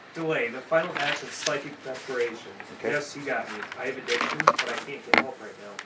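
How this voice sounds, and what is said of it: Smooth, resonant radio voice. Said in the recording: “got the great radio voice.”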